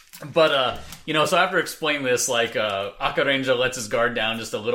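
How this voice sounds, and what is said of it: Usual voice. Nothing is said of it.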